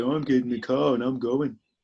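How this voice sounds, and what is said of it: Good impression of someone's voice. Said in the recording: “that's a good impression, though.”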